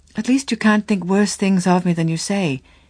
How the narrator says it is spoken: she exclaimed with a trembling laugh

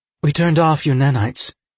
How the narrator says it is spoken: Scythe Volta said calmly

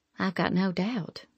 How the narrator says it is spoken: I murmured

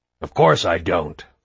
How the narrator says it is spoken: Hoffman snarled

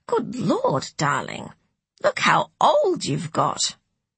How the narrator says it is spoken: Rachel had to stop herself from exclaiming

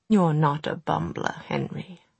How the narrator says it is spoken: Charlotte said gently

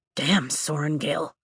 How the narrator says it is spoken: he mutters

